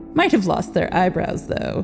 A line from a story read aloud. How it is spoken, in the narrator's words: he chuckled to himself at the thought